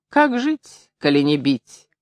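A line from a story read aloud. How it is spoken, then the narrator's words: Sighing. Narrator (Russian): мигун и, вздыхая, добавил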